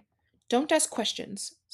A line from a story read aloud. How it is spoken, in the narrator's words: snapped his uncle